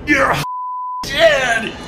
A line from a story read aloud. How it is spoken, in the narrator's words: He shouted, voice cracking with pain and rage